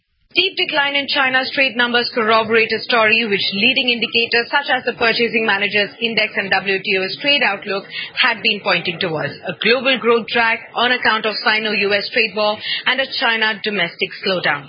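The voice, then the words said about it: Mild Indian English accent. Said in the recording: “This is an Indian lady, but hopefully you can understand her because she's got a little bit of an accent.”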